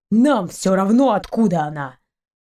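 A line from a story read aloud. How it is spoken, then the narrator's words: Grumbling. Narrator (Russian): Сапер заворчал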